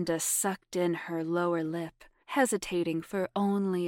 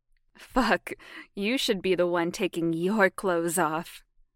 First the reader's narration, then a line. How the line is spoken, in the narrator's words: Jamie laughed